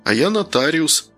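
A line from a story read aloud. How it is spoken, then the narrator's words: Plain. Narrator (Russian): зачем-то сказал Данил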